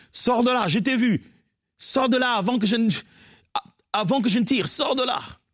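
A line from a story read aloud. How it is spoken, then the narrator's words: Shouting. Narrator (French): il criait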